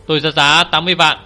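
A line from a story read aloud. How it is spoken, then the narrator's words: Loud. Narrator (Vietnamese): Anh lớn tiếng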